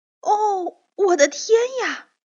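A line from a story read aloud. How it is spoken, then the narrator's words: Sudden exclamation. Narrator (Chinese): 托托……就立刻叫了起来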